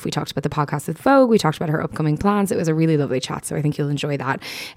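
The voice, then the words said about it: Slightly hoarse voice. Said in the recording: “I'm a little bit hoarse now”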